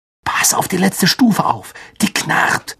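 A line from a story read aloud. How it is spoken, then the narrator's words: Whispering. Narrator (German): wisperte Harry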